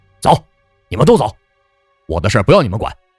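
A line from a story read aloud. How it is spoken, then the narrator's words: Irritated roar. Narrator (Chinese): 曹二顺烦了，对曹月娥和曹鱼儿吼道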